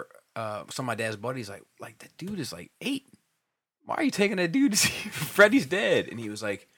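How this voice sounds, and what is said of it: Usual voice. Nothing is said of it.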